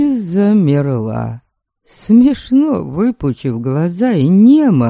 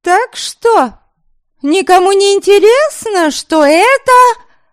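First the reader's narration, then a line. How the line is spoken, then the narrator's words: Ringing loud voice asking. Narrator (Russian): звонким, громким голоском спросила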